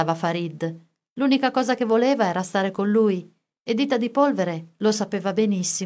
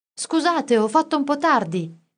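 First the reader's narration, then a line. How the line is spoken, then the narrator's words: Shouted from afar. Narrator (Italian): gridò Orfeo da lontano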